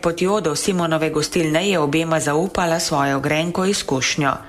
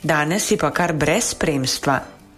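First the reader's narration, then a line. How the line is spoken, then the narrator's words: Quiet remark. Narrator (Slovenian): tiho pripomnil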